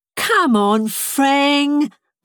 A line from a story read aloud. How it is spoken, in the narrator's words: pleaded Stront